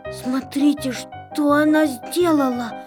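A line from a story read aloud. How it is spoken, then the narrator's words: Dejected faltering babble. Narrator (Russian): пролепетал он упавшим голосом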